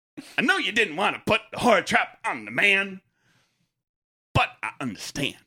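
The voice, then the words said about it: Imitates a comedian's cadence. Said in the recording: “I can't do his voice. I don't sound like him. ... you got his cadence. Yeah, you got that down pretty good.”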